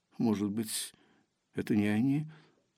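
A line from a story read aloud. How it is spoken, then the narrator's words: Timid young woman. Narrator (Russian): робко предположила девушка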